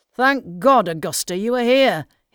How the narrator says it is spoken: he exclaimed

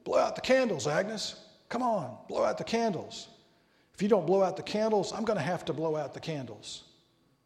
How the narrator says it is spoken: Harry gruffly mumbled

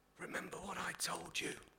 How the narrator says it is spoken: he whispered

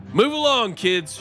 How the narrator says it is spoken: shouted

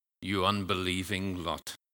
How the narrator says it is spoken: Jesus says, with a sigh

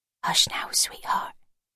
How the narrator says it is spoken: she whispered, bending her face down close towards the baby

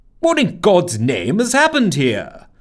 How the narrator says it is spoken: spluttered Papa

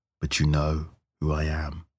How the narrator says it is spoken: the robed man said calmly

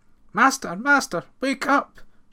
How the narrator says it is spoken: she cried

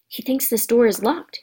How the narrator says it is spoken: Harry whispered

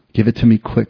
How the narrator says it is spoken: said Della

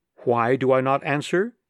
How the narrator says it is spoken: he said

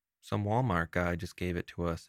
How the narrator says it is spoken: Anita replied

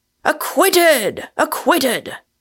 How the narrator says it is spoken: Echoing the cry

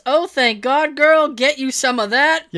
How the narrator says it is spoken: Guy shouts

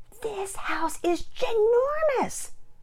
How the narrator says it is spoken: Penelope exclaimed

